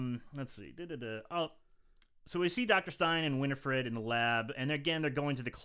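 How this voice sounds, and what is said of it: Usual voice. Nothing is said of it.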